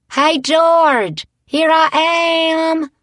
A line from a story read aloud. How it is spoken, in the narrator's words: she hollered